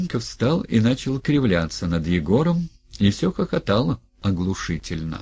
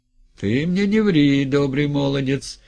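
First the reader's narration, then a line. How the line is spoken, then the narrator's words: Loud laughter. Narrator (Russian): Гринька опять громко захохотал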